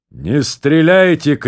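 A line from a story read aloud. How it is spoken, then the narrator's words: Shout, captain. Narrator (Russian): крикнул капитан навстречу Хосе Аркадио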